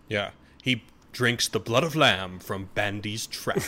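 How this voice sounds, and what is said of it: Good impression of movie line. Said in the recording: “That was a good impression.”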